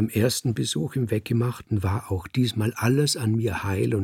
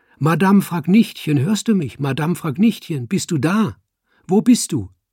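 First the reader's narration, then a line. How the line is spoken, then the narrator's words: Calling out. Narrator (German): ich rief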